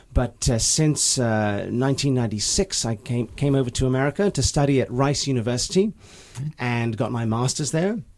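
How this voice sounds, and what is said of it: English accent. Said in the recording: “Despite the accent, my mother's English ... hence the accent, my formative years were in England.”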